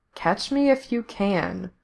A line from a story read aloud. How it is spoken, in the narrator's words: he read out softly